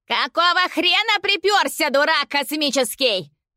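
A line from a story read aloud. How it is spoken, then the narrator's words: Woman yelling from afar. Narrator (Russian): завопила жена из-за забора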